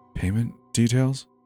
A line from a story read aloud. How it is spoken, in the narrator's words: whispered